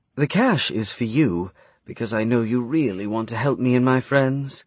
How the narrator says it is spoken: Aria said evenly

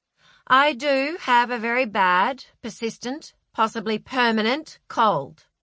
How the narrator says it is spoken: said Francis

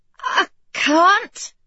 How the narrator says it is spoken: she said, her voice wavering

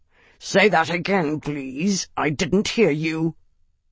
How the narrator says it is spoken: said, in the wolf warrior's own snarling tongue

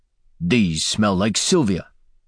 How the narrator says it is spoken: Latverian growled

